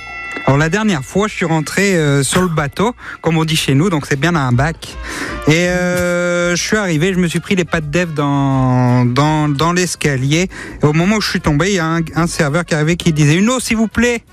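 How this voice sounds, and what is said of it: Put-on Alsatian French accent. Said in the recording (French): “l'accent alsacien, quand même, c'est quand même difficile à comprendre”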